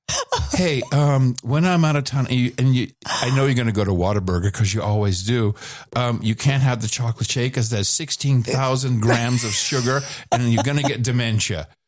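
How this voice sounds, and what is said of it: Imitation of the other host. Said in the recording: “I'll try to do the voice.”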